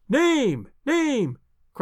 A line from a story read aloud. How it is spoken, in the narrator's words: cried the audience